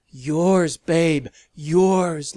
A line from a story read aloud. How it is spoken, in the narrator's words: Lavinia gasped around the wet sounds